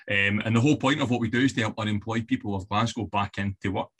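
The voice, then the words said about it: West of Scotland accent. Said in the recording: “You can probably tell my accent. I've born and raised in the west of Scotland.”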